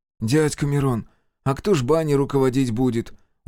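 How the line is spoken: Tired child's question. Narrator (Russian): устало спросил Максимка

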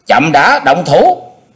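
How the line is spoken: Raised-voice call. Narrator (Vietnamese): Xung đại sư cao giọng kêu lên

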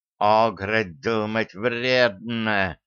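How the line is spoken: Hissed. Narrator (Russian): прошипел Шарль

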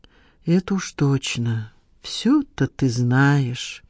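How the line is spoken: Drawling. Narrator (Russian): протянул Надежда

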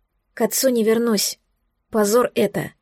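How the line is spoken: Quiet whisper. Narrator (Russian): прошептала тихо

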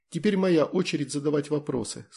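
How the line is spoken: Plain. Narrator (Russian): сказала Таня

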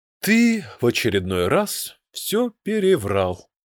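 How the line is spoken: Sighing. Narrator (Russian): вздохнул Мидриен

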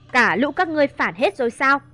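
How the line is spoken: Loud shout. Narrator (Vietnamese): Mà Nghiêm quát lớn

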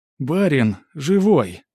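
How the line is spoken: Disbelieving exclamation. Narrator (Russian): воскликнула Матрёна, не веря своим глазам

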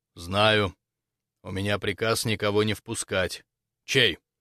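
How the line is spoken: Dull, muffled answer. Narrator (Russian): глухо ответил

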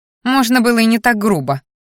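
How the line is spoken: Indignant snort. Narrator (Russian): фыркнула Мелисса

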